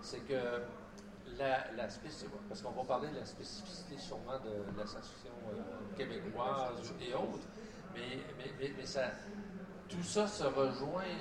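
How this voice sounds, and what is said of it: Québécois French accent. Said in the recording (French): “notre accent, c'est l'accent de Louis XIV ... c'est ça l'accent québécois”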